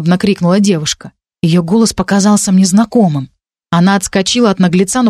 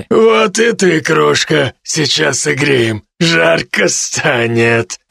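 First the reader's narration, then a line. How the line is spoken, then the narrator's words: Deep bass voice. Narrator (Russian): Пробасил тот, кто ее поймал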